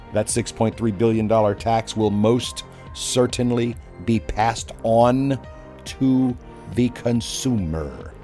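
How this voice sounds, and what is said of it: Speaks very slowly and deliberately. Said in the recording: “why am I saying it so slowly?”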